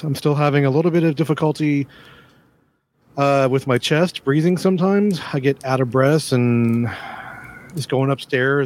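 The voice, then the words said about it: Weakened, unwell-sounding voice. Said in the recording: “As you can hear in my voice, I'm not at 100% yet.”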